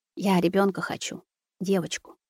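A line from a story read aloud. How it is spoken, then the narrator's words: Quiet. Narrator (Russian): тихо проговорила Маруся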